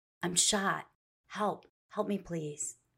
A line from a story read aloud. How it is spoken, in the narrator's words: the 33-year-old mother of two whispering to the operator